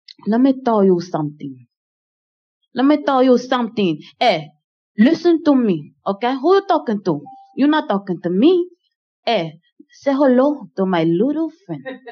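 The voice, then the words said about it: Tony Montana movie character impression. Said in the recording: “I got a good Tony Montana, you know what I'm saying, impersonation”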